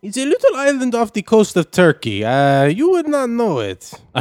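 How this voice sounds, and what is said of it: Mixed South American, Indian-sounding accent. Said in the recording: “You have a South American accent. ... Your accent seems to be a little bit South American, a little bit Indian at times, maybe.”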